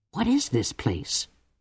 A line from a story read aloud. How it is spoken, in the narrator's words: whispered Cordelia